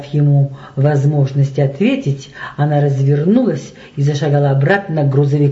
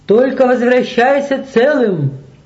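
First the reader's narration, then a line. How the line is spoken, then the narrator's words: Shouted farewell. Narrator (Russian): крикнул ему Николай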